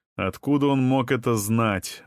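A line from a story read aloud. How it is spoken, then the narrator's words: Plain. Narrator (Russian): вновь спросил Ален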